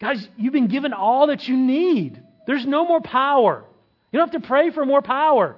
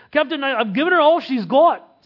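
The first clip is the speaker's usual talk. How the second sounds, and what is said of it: Put-on Scottish accent. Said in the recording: “that's my best Scottish accent.”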